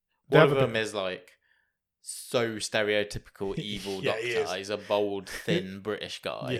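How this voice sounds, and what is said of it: Usual voice. Nothing is said of it.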